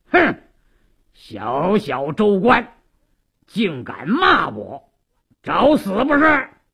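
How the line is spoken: Harsh stern bark. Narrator (Chinese): 鲁斋郎厉声喝道

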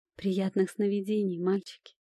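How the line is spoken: Sleepy yawning whisper. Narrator (Russian): прошептала, зевая

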